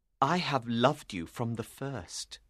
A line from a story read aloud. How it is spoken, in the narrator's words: he said